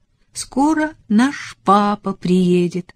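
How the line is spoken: Joyful. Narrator (Russian): радостно сказала Элизабет Николасу Рифу

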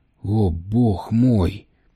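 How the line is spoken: Whisper. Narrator (Russian): прошептал Тремейн

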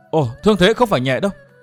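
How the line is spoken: Sudden exclamation. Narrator (Vietnamese): Đột nhiên Thiên Hương công chúa bật kêu lên

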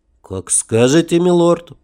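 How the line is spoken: Captain, through gritted teeth. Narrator (Russian): процедил капитан сквозь зубы

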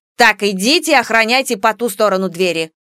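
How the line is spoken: Stern. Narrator (Russian): строго произнесла Нара

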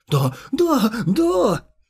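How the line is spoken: Sobbing with joy. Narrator (Russian): Заля зарыдал от радости

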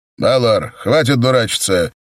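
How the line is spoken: Older raven barking. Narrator (Russian): рявкнул старший ворон

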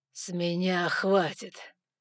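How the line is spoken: Growling voice. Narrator (Russian): В его голосе все еще слышалось рычание

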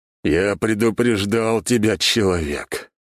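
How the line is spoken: Muffled reply. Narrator (Russian): глухо ответил Ожегов

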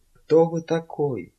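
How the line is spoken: Whispered. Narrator (Russian): прошептала она

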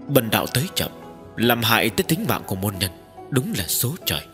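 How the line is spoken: Sighing. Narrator (Vietnamese): Tiếp dẫn đạo nhân thở dài một tiếng

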